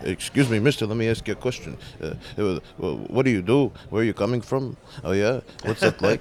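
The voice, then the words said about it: Impression of comedian Jackie. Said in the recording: “if you don't mind me doing an impression of you”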